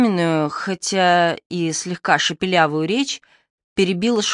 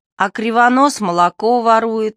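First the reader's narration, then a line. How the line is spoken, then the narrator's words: Yelled. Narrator (Russian): завопил он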